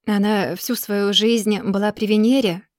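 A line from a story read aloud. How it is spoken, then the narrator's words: Calm, thoughtful reply. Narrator (Russian): отвечает он спокойно и вдумчиво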